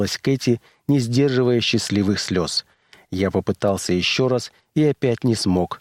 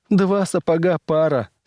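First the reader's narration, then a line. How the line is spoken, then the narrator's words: Laughing and crying. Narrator (Russian): смеялась она и плакала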